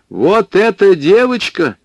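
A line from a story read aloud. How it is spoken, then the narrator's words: Sudden loud. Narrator (Russian): вдруг громко сказала массовичка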